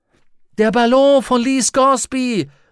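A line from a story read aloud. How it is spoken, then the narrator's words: Calling out. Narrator (German): rief Lyra vor Freude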